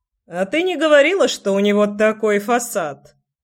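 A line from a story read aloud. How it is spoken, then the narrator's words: Chuckling. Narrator (Russian): хохотнул чувак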